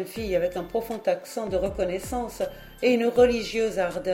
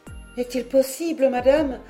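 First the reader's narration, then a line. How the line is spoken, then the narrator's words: Young girl exclaiming. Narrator (French): s'écria la jeune fille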